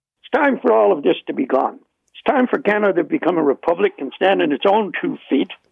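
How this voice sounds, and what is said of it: Irish accent. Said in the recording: “you can hear by my accent, I'm Irish”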